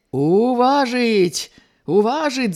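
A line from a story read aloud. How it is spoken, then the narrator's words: Men clamoring in unison. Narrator (Belarusian): загаманілі адным голасам мужыкі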